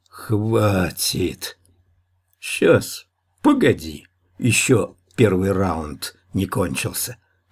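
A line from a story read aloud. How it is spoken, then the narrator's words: Peaceable drawl. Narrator (Russian): миролюбиво протянул Гмых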